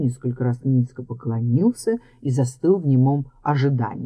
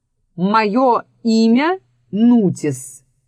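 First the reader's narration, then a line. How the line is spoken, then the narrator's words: Loud answer. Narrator (Russian): громко ответил паук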